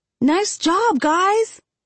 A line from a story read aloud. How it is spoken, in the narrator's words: I yell